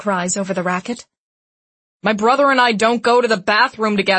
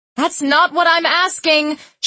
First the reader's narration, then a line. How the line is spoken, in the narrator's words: she shouts